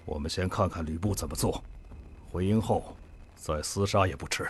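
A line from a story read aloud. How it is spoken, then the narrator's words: Hurried, low voice. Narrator (Chinese): 连忙低声说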